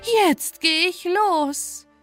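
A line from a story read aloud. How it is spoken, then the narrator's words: Calling out. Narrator (German): rief sie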